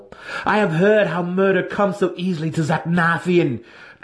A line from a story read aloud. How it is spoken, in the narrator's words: Drizzt spat derisively